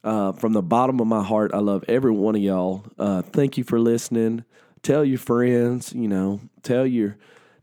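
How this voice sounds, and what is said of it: Sniffly, unwell-sounding voice. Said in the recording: “I had to edit out a bunch of coughs. I'm sorry about the sniffles. I'm sorry about the way my voice sounds right now. I know it doesn't always sound that great, but it usually sounds better than this.”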